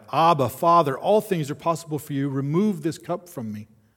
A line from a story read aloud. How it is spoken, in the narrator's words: 3 times Jesus cried out